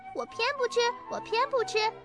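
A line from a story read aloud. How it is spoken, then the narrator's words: Child yelling. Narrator (Chinese): 那小朋友也叫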